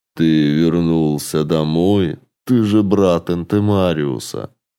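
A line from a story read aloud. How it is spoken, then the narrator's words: Even voice. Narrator (Russian): странник ровным голосом ответил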